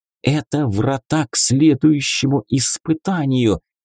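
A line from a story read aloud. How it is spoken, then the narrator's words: Excited girl's whisper. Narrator (Russian): возбужденно прошептала девушка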